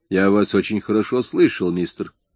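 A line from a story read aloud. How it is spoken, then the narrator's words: Calm. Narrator (Russian): спокойно сказал шофер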